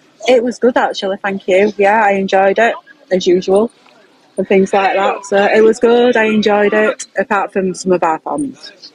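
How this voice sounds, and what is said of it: Hoarse, failing voice. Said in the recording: “I can tell my voice is going. ... I can tell.”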